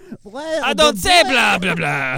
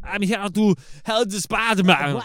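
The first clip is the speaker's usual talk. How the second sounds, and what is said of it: Put-on Russian Transylvanian accent. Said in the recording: “In his terrible whatever accent that is. Russian Transylvanian accent.”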